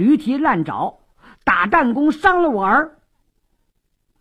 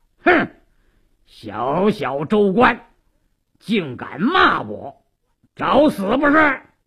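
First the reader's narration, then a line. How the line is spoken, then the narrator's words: Harsh shout. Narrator (Chinese): 鲁斋郎厉声喝道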